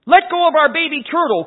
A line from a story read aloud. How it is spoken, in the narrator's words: cried one of the children